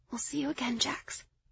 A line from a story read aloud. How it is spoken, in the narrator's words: Lyrianna whispered